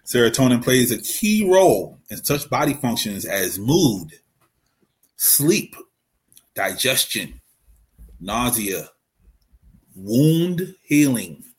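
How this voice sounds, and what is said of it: Baltimore accent. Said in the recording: “My Baltimore accent, the wound don't sound like wound, apparently.”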